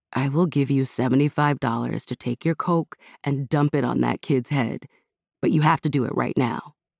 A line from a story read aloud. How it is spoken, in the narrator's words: Kelly whispered in Amira's ear